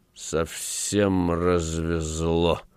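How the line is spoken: Muttering. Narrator (Russian): бормотал он

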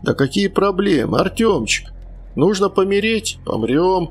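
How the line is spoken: Forced cheerfulness, man. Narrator (Russian): Нарочито весело продолжал мужчина

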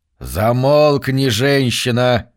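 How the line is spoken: Grumbling. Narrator (Russian): проворчал пастор

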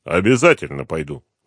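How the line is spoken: Gloomy reply. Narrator (Russian): мрачно ответил Дронго

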